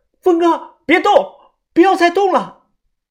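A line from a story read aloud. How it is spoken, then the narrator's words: Panicked shouting. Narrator (Chinese): 范神医的脸色煞白，他冲着我喊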